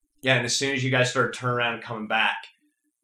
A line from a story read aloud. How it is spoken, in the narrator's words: the other two snapped